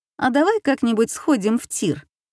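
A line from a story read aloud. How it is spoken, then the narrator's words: Laughing suggestion. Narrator (Russian): Та в ответ только рассмеялась и предложила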